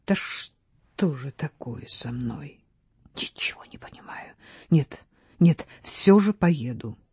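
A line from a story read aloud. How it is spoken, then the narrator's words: Whisper. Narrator (Russian): он прошептал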